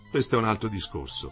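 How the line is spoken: Quiet, low voice. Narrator (Italian): disse piano

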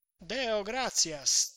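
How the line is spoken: Clear voice. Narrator (Italian): disse Tonio, a voce chiara

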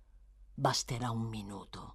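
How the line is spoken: Hissing. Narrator (Italian): soggiunse, sempre sibilando

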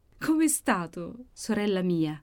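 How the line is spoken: Loud sobbing exclamation. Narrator (Italian): esclamava singhiozzando clamorosamente Maddalena, mentre calde lacrime le rigavano le guance

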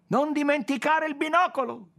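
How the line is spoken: Shouting from below. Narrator (Italian): gridò da sotto la Ruel

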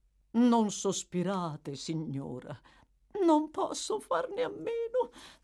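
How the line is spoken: Sighing woman. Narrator (Italian): disse la donna e tornò a sospirare

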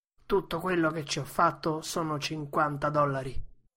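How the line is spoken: Grumbling. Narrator (Italian): brontolava

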